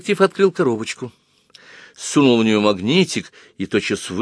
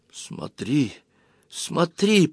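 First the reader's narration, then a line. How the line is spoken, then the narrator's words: Whisper. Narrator (Russian): прошептала она через минуту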